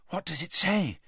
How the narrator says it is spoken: Hermione asked breathlessly

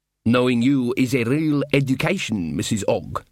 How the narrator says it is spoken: said Casanunda

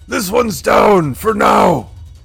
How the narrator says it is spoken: Stormak will yell out

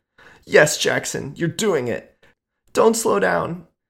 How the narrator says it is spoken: she squealed loudly

